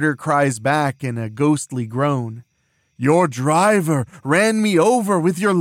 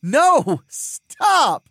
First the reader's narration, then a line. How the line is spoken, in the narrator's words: Ariel laughs, still running